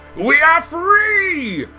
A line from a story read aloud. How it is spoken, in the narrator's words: Green roared